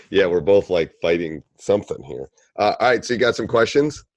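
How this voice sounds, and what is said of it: Slightly hoarse voice. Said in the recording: “excuse my voice here. It's a little hoarse”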